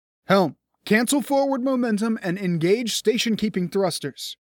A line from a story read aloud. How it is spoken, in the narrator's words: Ken barked